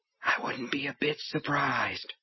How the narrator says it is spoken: Under his breath, Brian whispered

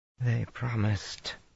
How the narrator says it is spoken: she mumbled to Rand

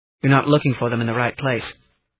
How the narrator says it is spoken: he said firmly

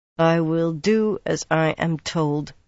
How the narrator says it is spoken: she said at last in a flat voice

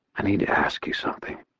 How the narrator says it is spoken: I whispered

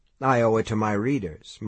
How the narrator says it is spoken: Mike said blandly

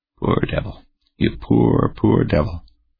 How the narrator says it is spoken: the commander murmured

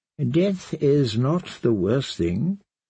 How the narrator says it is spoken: the kindly man replied

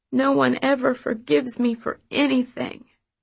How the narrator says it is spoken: she whimpered, her chin shaking

